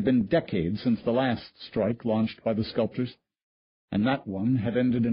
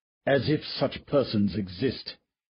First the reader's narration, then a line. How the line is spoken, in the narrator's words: said Willoughby scornfully